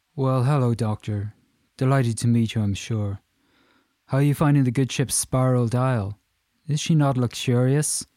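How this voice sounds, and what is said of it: Strong Irish accent. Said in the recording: “He greeted her effusively in a strong Irish accent.”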